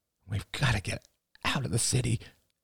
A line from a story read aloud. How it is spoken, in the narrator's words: muttered Rachel